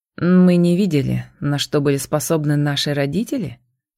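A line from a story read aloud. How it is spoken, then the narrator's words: Sarcastic question. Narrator (Russian): осведомился он язвительно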